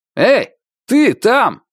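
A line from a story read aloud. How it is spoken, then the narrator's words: Shouting guard. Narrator (Russian): крикнул охранник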